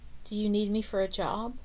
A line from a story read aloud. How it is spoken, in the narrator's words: Debbie chuckled